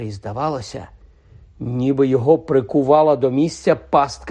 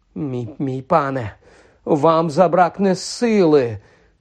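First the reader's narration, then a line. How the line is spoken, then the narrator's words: Trembling voice. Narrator (Ukrainian): тремтячим голосом мовив Квірл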